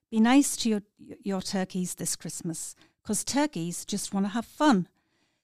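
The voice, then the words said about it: Northeast English accent. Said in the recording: “a mixture of an accent that I am not going to emulate. So it'll have to be northeast.”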